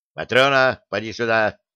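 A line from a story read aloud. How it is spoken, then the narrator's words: Sharp shout. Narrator (Russian): прикрикнул он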